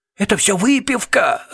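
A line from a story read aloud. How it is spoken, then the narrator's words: Sobbing. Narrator (Russian): разрыдался Пуст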